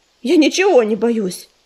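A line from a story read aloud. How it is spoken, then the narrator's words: Snapping. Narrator (Russian): огрызнулся Ежевика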